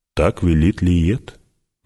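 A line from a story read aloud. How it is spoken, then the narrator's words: Grim. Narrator (Russian): мрачно сказал Стилгар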